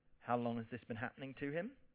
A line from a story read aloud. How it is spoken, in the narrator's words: Jesus asks calmly